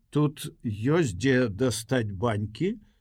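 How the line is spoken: Plain. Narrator (Belarusian): запытала Волька

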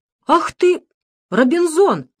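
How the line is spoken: Priest's exclamation. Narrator (Russian): воскликнул батюшка

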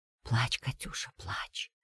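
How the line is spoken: Soothing whisper. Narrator (Russian): шептала Тамара

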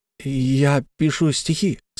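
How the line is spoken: Halting, stammering speech. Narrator (Russian): сказал он, запинаясь

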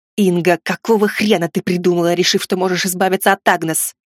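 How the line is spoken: Hiss. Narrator (Russian): прошипел я

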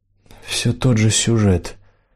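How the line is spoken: Gloomy explanation. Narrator (Russian): мрачно пояснил Лэндон

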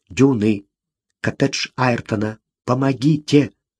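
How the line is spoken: Hurried quiet male whisper. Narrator (Russian): Очень тихий, но торопливый мужской голос прошептал

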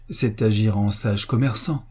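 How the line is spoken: Plain. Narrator (French): dit M

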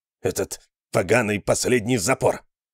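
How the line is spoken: Growled. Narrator (Russian): прорычал Талуф

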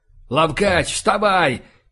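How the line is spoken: Shout. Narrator (Russian): выкрикнул я

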